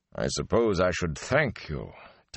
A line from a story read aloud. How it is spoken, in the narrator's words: Tom Marilyn muttered finally